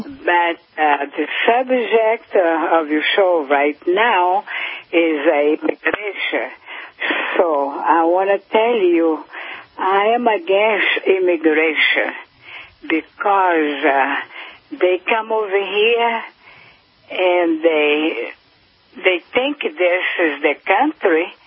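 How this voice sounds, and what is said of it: Noticeable foreign accent. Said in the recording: “I detect an accent.”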